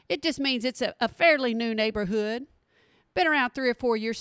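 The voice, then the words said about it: Texas accent. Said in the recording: “I don't know if you caught my accent, but I live in a little town in Texas”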